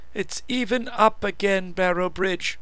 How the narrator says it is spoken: she told me sweetly

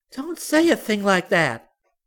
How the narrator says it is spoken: Sumiko cried, and Celia saw that she was near tears

